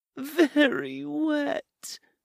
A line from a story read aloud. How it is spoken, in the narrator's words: she moaned